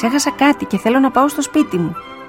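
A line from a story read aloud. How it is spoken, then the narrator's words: Nanny shouting. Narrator (Greek): φώναξε στη δασκάλα η νιάνια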